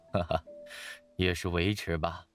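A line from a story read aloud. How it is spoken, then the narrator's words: Modest laugh. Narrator (Chinese): 范蠡谦虚地笑笑道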